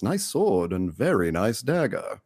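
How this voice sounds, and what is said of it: Imitates a TV character's voice. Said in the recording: “my dead on Brienne impression ... It was pretty good.”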